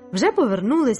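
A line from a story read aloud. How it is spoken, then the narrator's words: Exclaimed. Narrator (Ukrainian): вигукнув Луїс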